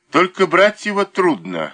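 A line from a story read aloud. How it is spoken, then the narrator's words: Chuckling. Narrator (Russian): хохотнул Никитин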